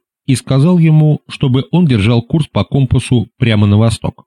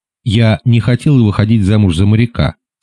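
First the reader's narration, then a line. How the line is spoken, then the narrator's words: Plain. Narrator (Russian): сказала Маргарет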